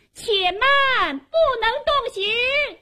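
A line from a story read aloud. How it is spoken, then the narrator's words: Woman shouting loudly. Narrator (Chinese): 有个女子高声喊道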